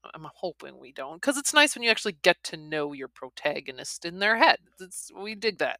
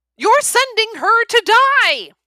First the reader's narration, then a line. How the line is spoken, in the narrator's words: A familiar voice thunders through the general's thick wooden door